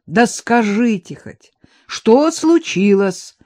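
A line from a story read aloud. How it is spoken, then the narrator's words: Loud question. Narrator (Russian): громко спросил Виктор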